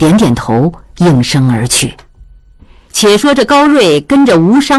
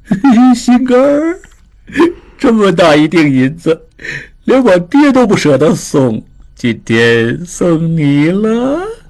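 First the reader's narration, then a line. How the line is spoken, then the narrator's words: Flirtatious teasing. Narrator (Chinese): 吴商人在那里调笑道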